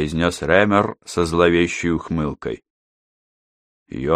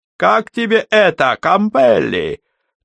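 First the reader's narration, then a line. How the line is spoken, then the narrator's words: Triumphant shout. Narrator (Russian): торжествующе крикнул Рэмер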